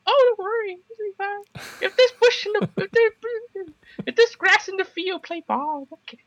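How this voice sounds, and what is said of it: Imitates another person's voice. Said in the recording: “that impression of Bao Heijing”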